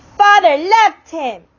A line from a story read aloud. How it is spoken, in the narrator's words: Meg cried